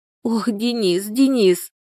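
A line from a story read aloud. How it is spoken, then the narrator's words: Sobbing repetition. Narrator (Russian): повторяла она, всхлипывая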